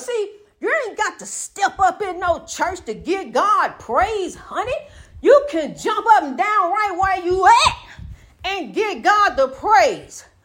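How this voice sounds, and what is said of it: Loud, shouting excited preaching. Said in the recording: “I'm shouting, and I know they all hear me next door. I get loud”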